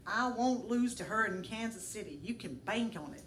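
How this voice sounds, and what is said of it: Attempted Tennessee accent. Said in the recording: “this is a Tennessee accent. You can laugh at my attempt.”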